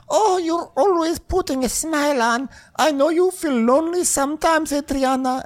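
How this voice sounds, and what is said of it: Poor imitation of another woman's voice. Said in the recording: “that was not her voice at all, by the way. It was a terrible impersonation.”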